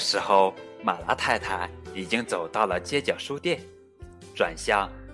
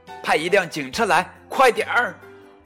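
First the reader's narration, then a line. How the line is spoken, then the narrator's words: Loud shout. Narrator (Chinese): 麦克大喊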